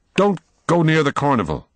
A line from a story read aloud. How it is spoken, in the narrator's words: blurted out